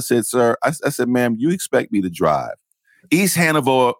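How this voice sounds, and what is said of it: Usual voice. Nothing is said of it.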